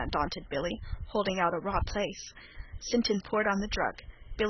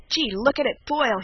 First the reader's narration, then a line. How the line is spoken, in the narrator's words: he cried